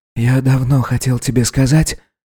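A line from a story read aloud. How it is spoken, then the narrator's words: Hoarse ghostly whisper. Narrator (Russian): перейдя на хриплый шепот, сообщил призрачный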